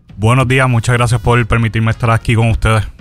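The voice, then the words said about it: Deep, resonant radio announcer voice. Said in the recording (Spanish): “Tiene voz de locutor ... engolando”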